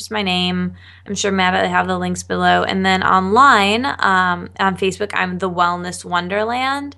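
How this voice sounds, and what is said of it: Calm, smooth radio-style voice. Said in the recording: “your amazing radio voice ... I'm going to talk really chill and cool back ... I just feel so relaxed talking to you”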